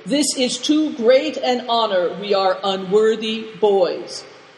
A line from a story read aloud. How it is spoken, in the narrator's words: Christian and Big Tiger said as loudly as they could